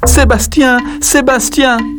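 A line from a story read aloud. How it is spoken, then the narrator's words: Mother shouting. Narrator (French): la maman de Poulou et elle crie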